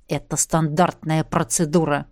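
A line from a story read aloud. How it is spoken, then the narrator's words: Through gritted teeth. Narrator (Russian): процедил Фабрис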